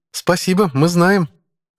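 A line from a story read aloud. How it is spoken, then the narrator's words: Snorting. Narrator (Russian): хмыкнул Райли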